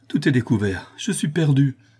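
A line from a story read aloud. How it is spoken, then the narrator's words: Terrified exclamation. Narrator (French): s'écria Louise épouvantée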